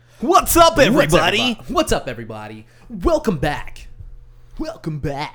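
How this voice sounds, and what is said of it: Hyped YouTuber morning-radio voice. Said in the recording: “That's my YouTube voice. ... That's also a morning radio voice.”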